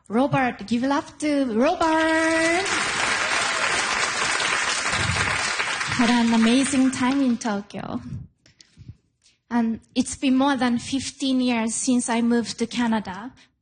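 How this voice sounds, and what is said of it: Japanese-accented English, difficulty with R. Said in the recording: “I still have a Japanese accent. The Japanese language doesn't have the R sound, so R is difficult for me.”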